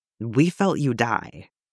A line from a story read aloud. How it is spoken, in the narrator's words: Andy said, gently